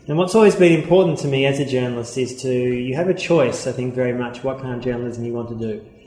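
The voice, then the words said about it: Australian accent. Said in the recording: “I'm Australian, as you can tell by my accent”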